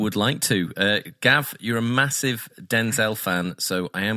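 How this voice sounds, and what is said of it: Usual voice. Nothing is said of it.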